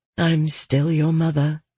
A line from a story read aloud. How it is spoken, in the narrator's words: she said softly